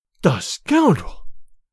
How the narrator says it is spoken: cried Olga

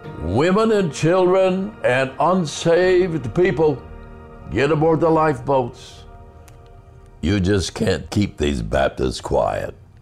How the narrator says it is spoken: that Baptist minister ran around the deck shouting

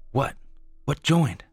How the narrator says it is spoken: snapped, having had the answer taken away last time

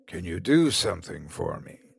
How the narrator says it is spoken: the man asked

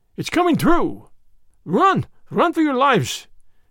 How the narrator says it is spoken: cried the Frenchman

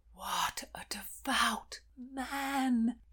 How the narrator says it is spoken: breathed Aunt Stonor

